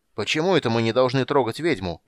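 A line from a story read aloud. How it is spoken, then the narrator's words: Shouted reply. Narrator (Russian): прокричал кто-то в ответ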